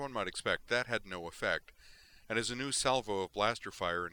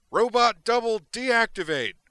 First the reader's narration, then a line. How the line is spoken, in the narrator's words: shouted